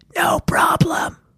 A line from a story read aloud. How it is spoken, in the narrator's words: Abby whispered back